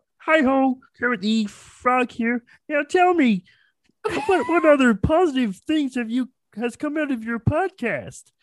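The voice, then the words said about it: Kermit the Frog character voice. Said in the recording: “do the Kermit voice ... my Adam's apple comes up here ... So you stretch”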